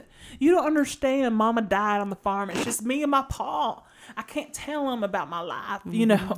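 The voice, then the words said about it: Put-on Southern accent. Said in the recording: “she's from the Bible Belt ... South Carolina”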